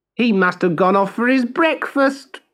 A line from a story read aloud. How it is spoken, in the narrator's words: jeered one of the boys